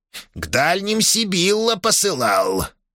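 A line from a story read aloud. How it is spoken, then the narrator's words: Old man grumbling under breath. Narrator (Russian): проворчал себе под нос старый шаман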